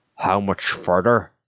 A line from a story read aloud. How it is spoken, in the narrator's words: grumbled Art